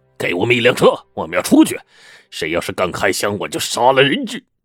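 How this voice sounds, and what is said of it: Rough, coarse threatening voice. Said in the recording (Chinese): “粗鲁的声音”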